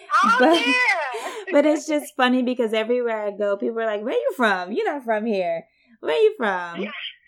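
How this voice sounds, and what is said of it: Distinctive regional Louisiana accent. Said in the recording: “The accent is very unique.”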